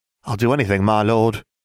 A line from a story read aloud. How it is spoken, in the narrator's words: she sighed